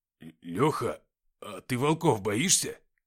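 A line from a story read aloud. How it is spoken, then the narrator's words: Frightened question. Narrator (Russian): испуганным голосом спросил Никита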